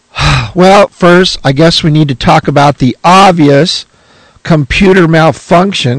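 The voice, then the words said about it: Hoarse, rough gravelly voice. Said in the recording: “My voice is a little hoarse ... I sound kind of rough and gravelly like this”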